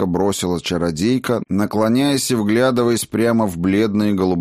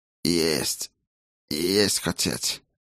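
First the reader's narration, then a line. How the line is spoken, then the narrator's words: Old man's wheeze, strange accent. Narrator (Russian): просипел старик со странным акцентом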